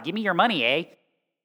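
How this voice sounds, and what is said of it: Bad put-on Canadian accent. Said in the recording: “That's my terrible Canadian accent.”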